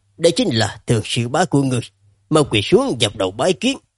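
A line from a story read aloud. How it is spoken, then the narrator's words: Smiling. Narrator (Vietnamese): Cổ Nhị Cố mỉm cười nói với Phương Nguyên Tế rằng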